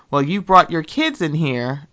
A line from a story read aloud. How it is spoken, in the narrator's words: she said, a little firmly